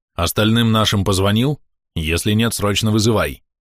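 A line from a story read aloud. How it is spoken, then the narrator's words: Quick question. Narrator (Russian): Александр Игоревич быстро спросил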